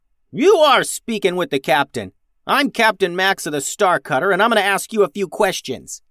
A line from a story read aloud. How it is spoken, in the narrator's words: yelled Max